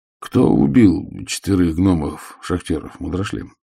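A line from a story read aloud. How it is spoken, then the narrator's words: Soft. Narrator (Russian): мягко произнес Ваймс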